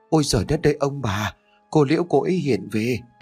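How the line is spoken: Stammering frightened cry. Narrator (Vietnamese): Chị Siêu lúc bấy giờ đã thấy chủ lắp bắp kêu lên

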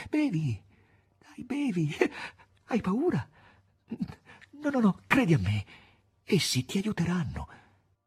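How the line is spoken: Trembling, persuading voice. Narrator (Italian): Margherita cercava di persuadere il maestro con voce tremante

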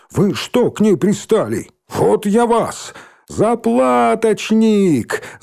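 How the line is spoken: Yelling. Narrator (Russian): завопил Рыжий

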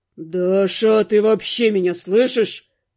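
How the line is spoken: Growled. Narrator (Russian): прорычал Каст

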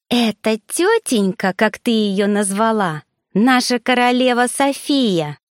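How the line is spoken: Rude, slightly snide, irritated. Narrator (Russian): грубо и чуток ехидно добавила девица, разозленная тем, что я ее игнорировала

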